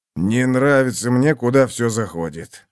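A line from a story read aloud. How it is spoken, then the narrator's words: Grumbled. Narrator (Russian): буркнул Баден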